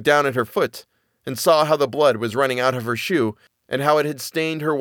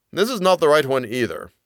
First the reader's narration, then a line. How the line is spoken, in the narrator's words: said